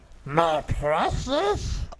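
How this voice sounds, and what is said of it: Gollum character voice. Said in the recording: “Like, your Gollum impression.”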